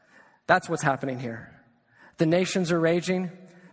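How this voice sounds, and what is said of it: Usual voice. Nothing is said of it.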